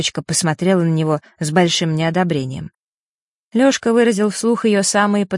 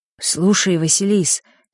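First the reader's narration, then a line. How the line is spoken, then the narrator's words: Quiet. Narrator (Russian): тихо произнес Лёшка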